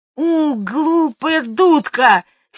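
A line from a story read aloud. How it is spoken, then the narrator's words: Girl's angry shout. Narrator (Russian): сердито закричала девочка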